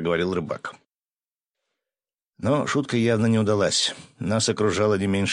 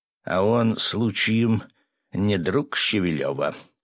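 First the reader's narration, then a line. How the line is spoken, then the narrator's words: Menacing through teeth. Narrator (Russian): с угрозой процедил Жорик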